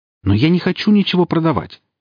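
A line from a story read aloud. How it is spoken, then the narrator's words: Exclaimed. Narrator (Russian): воскликнул японец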